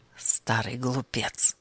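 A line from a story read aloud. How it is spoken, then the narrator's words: Muttered. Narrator (Russian): пробормотал он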